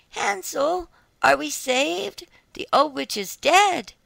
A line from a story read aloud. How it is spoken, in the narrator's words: Gretel, however, ran like lightning to Hansel, opened his little stable, and cried